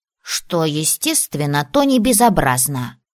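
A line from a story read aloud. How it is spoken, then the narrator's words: Snorting. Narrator (Russian): хмыкнул он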